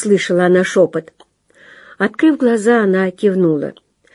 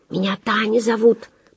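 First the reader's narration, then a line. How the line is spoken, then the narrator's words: Whispered. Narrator (Russian): прошептала та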